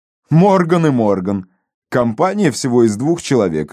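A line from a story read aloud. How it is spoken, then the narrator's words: Laughing. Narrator (Russian): рассмеялся Фрэнсис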